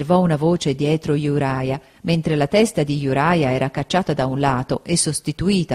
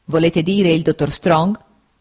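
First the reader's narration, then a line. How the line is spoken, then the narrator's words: Stern interruption. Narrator (Italian): lo interruppe il signor Wickfield in tono severo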